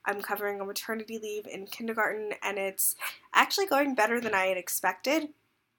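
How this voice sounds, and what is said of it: Congested voice from a cold. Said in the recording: “If you can't hear it in my voice, I got sick this weekend ... Just a bad cold ... don't mind the congestion that you're hearing”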